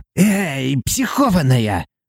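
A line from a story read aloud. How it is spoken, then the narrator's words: Hissing. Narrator (Russian): прошипел он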